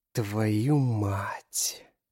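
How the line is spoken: Drawn-out dismayed exclamation. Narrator (Russian): Протянул Рейден, осознав, что только что продемонстрировал матери проколотый сосок

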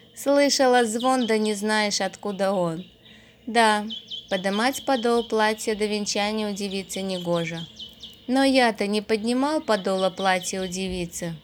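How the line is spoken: Said after laughing. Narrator (Russian): Отсмеявшись, сказал

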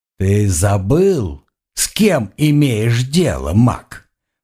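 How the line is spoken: Hissed. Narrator (Russian): прошипел Эйя

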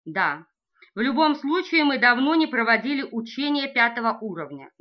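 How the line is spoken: Plain. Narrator (Russian): говорит Коэн

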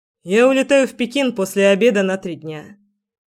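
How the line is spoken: Casual matter-of-fact tone. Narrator (Russian): сказал будничным тоном

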